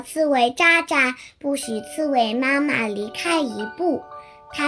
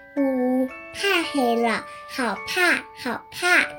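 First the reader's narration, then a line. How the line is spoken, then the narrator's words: Crying little monkey. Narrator (Chinese): 小猴淘淘 哭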